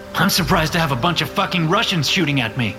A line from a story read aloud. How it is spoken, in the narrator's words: I shout